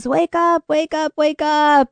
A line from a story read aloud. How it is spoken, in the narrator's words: I began screaming at the top of my lungs